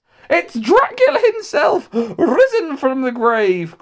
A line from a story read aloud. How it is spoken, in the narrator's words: cried one of the more highly strung ladies